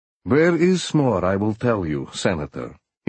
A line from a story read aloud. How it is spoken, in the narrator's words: he said